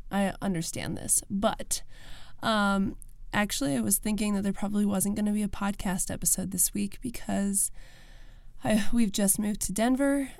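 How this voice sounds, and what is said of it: Sick, rough-sounding voice. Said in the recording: “I sound awful today ... I've been sick since we got here and it just keeps getting worse”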